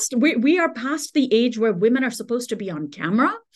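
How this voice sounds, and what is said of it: Accent that is hard to place. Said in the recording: “I have a weird accent that people can't quite place”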